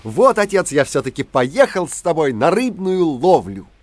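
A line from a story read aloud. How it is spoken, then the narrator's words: Child's cheerful shout. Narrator (Russian): мальчик … весело закричал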